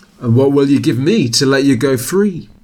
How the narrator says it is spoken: asked Jack

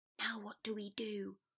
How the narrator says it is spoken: Potter whispered

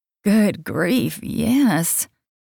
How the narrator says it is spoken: I mumbled since my mouth was watering

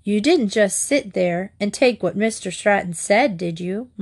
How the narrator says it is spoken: Mart asked

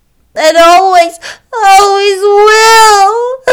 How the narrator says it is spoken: sobbed Diana

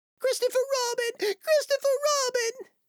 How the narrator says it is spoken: cried Piglet

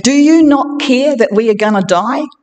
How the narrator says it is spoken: They desperately wake him up and say

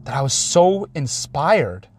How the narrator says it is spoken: I cried

